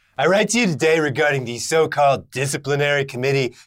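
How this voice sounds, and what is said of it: Donald Trump impression. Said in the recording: “you need to brush off that Donald Trump accent. It's been a little while. I don't know if you still got it.”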